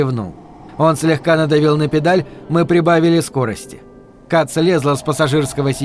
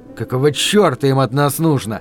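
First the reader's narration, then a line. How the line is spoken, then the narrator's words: Through gritted teeth. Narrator (Russian): процедил Дэнни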